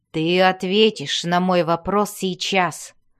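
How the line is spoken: Growling. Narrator (Russian): прорычал Энтрери

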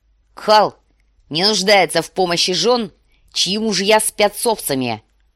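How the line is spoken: Bark. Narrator (Russian): рявкнул Квота

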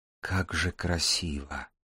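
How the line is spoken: Awed whisper. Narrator (Russian): невольно прошептал Дар, прежде никогда не наблюдавший подобного

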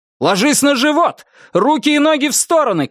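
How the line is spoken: Shouting. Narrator (Russian): крикнул он

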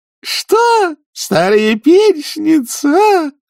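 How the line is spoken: Screamed over the noise. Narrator (Russian): завопила она, перекрывая шум

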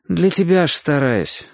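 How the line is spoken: Sighing. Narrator (Russian): вздохнул Чик

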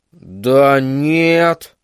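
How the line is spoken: Mumbling. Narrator (Russian): промямлил Верн

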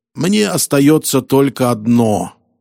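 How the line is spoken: Plain. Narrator (Russian): ответил Роллингс

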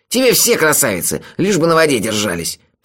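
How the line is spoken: Contemptuous snort. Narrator (Russian): презрительно фыркнул Мелифара

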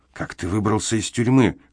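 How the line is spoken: Hoarse whisper. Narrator (Russian): хриплым шепотом спросил Эмзел

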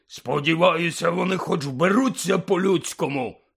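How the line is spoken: Quick gruff bark. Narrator (Ukrainian): відразу ж гаркнув дядько

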